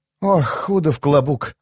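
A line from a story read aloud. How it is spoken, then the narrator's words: Sigh. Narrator (Russian): вздохнула она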